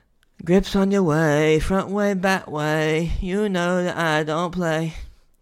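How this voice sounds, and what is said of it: Imitates a popular rapper's voice. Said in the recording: “my best impersonation of what many would consider to be one of their favorite artists of current day”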